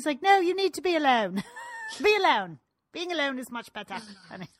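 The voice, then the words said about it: Very poor British accent. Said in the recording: “That is a very poor British accent. ... Yes, it was. ... The worst I've ever heard.”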